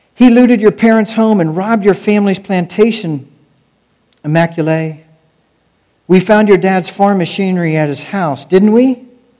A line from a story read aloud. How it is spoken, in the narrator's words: Samana yelled at Felician